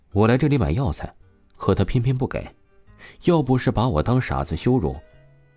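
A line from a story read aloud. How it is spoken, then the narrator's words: Calm, fearless. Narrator (Chinese): 王峰，并没有任何的畏惧，他只是淡淡出声道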